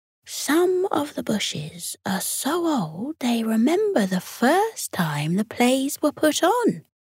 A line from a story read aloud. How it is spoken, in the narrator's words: whispered a stoat